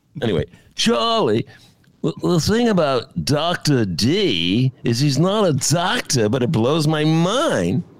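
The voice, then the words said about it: Poor imitation of another person's voice. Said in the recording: “That's my Mick Jagger. That's a terrible... that sucked... it's terrible... That imitation was horrible. I admit it was horrible.”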